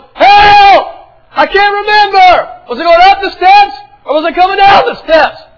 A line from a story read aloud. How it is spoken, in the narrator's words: She yelled